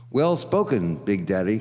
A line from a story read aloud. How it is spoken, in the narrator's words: cried the buddy real glad